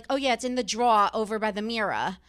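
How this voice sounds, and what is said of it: New Jersey accent. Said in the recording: “I'm from New Jersey, so I think I've kind of like gotten rid of my accent a little bit over the years. Like when I first went to college, I'd be like”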